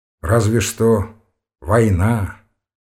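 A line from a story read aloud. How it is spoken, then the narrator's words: Glum agreement. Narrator (Russian): уныло согласился Ромашов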